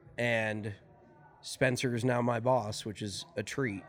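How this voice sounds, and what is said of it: Sarcastic tone. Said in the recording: “I can't tell if that was sarcastic or not. ... Oh, it's definitely sarcastic.”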